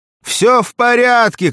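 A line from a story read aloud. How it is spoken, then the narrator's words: Shouted. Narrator (Russian): крикнул Петя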